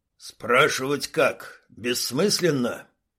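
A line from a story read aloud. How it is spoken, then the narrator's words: Grumbling. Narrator (Russian): проворчал шмель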